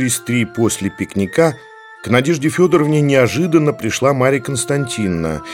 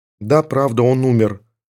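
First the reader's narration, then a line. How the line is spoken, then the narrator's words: Plain. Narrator (Russian): ответила Надежда Федоровна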